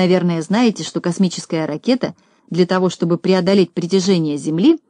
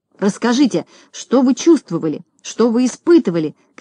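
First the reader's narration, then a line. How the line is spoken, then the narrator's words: Shouting. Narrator (Russian): кричал кто-то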